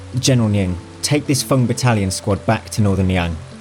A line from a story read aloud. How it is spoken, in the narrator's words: Xu Fengnian remarked calmly